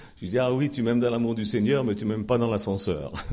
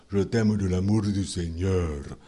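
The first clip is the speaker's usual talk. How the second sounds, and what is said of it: Imitated accent of another man. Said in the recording (French): “je vais vous le faire avec son accent,”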